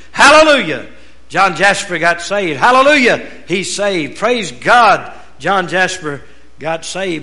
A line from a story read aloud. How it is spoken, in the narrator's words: all the slaves that were saved began to shout with him